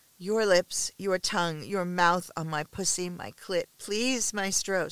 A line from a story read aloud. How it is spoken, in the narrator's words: stammers, still not good at voicing her desires clearly